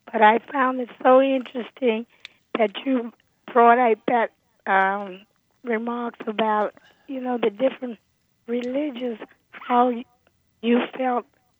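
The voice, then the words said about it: Hoarse voice. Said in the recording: “I apologize for my hoarse voice today”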